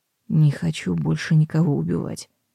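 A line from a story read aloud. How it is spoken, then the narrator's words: Barely audible, embarrassed. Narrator (Russian): добавил чуть слышно и смущенно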